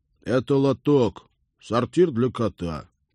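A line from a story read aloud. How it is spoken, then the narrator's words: Commanding tone. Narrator (Russian): хозяин командным тоном заявил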